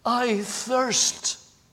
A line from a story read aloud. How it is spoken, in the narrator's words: the heart-rending gasp